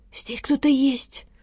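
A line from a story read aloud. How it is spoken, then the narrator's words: Whisper. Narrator (Russian): прошептала Лола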